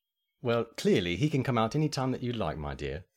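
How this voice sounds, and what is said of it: Put-on British accent. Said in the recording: “the British version of you ... you just so easily slip into that accent ... a British accent”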